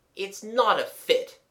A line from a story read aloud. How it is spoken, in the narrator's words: gasped Jimmy angrily